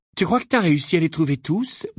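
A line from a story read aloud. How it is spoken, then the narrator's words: Mock-worried question. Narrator (French): demanda James d'un ton faussement inquiet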